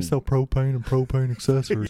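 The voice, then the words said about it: Good Hank Hill cartoon voice impression. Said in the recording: “You do such a good impression ... of Bill or Hank Hill”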